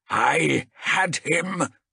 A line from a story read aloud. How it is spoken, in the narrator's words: snarled